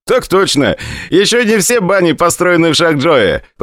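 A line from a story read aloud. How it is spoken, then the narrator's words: Laughing. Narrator (Russian): посмеялся Орлов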